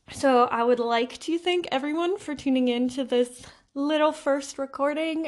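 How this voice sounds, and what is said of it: Nervous, shaky voice. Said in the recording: “I'm still very nervous. I'm sure you can hear it in my voice.”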